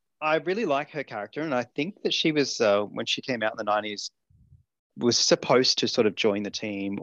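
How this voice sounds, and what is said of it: Australian accent. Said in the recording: “my accent. ... I'm Australian”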